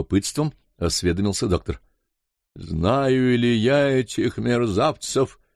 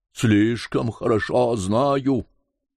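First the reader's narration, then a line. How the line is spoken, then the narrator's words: Terrible threatening exclamation. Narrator (Russian): воскликнул Кадур ужасным, угрожающим голосом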